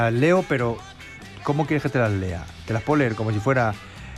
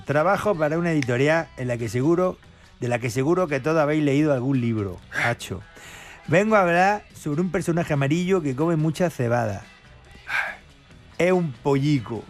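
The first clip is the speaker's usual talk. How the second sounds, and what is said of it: Put-on Murcian Spanish accent. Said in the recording (Spanish): “Te las puedo leer como si fuera murciano ... ¿Puede ser murciano? ... Claro que sí.”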